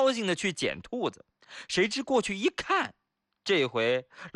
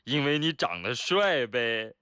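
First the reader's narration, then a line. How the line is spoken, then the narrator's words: Joking. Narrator (Chinese): 同事就干脆开玩笑地说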